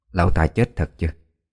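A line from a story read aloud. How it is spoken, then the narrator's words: Quiet question. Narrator (Vietnamese): Bà Kim hồi nhỏ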